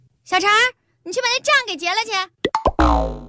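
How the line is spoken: Busy woman, brief. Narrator (Chinese): 老板娘手头正忙着呢，就对旁边的一小弟说了一句

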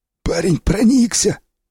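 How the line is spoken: Hoarse wheeze. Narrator (Russian): просипел сиплый

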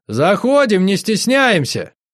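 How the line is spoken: Loud. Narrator (Russian): я громко сказал

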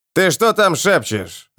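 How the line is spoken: Growling. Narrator (Russian): рыкнул сир Вомок

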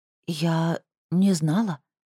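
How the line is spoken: Hoarse voice. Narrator (Russian): хриплым голосом начала Шимхет, закашлялась

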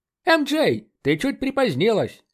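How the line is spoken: Cheerful exclamation. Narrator (Russian): бодро воскликнул Рит Рамзи

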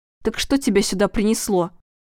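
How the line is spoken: Angry. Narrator (Russian): зло проговорила Светлана

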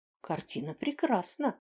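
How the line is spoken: Confident declaration. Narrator (Russian): убежденно заявила Ладе

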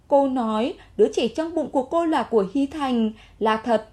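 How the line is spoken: Sighing. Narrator (Vietnamese): thở dài một hơi nói

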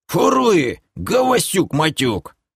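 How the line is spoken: Growl. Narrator (Russian): рыкнул Махаруша

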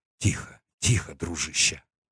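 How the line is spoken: Whisper. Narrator (Russian): прошептал я

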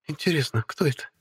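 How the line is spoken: Quiet inquiry. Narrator (Russian): Тихо поинтересовалась Оливия

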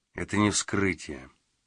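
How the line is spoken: Quiet. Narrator (Russian): тихо проговорил

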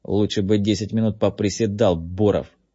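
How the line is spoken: Through gritted teeth. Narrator (Russian): процедил Джеймс ему вслед

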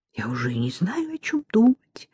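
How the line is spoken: Muttering. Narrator (Russian): пробормотала она

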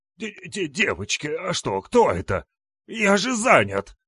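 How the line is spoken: Wheezing old man calling. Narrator (Russian): Хрипя легкими, зовет дед

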